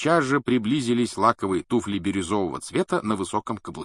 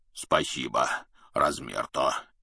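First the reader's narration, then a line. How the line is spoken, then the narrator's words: Deep bass. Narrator (Russian): пробасил Хагрид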